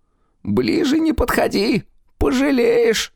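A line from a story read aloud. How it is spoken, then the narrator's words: Pained moan. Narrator (Russian): простонал Чидер, схватившись обеими руками за живот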